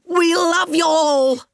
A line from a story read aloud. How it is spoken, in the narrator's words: shouted